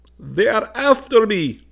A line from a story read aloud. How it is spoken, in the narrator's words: said in a wailing voice